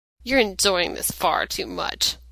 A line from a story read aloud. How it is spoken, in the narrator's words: Dean grumbled